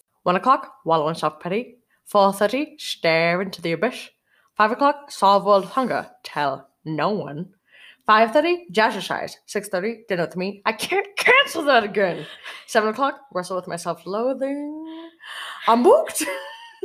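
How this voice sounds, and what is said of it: Grinch character voice. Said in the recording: “I can do a fucking killer Grinch accent.”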